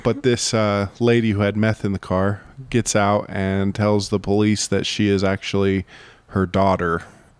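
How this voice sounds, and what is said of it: Sick, odd-sounding voice. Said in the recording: “You have like a really weird voice today. You're sick. ... It's because I'm sick.”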